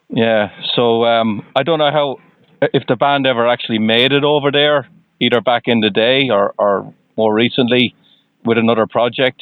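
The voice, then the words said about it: Irish accent. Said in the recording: “you can probably tell from my accent I'm uh, I'm not from the U.S. ... I'm Irish.”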